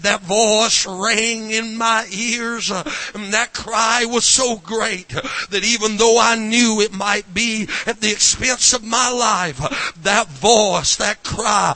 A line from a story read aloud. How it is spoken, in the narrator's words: he said